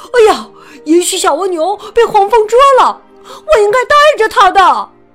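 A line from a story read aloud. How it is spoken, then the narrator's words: Worried shout. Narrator (Chinese): 富兰克林担心的大喊起来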